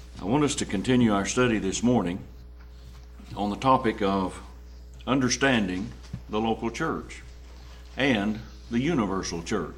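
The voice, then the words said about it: Impaired, strained speaking voice. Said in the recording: “my voice is not what it should be, but if you can put up with it, we'll struggle through”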